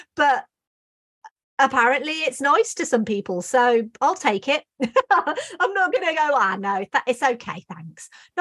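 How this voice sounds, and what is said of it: English Midlands accent. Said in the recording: “Americans have always loved my accent ... I'm in the Midlands”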